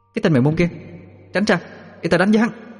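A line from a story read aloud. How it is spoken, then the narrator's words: Shouting. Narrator (Vietnamese): Nguyệt Nhi la lên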